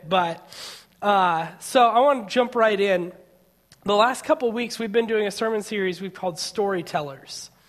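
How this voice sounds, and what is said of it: Slightly scratchy voice. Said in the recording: “my voice is a little bit scratchy today. I'm on the tail end of a bit of a cold”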